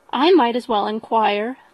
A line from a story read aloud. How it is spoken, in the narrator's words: replied she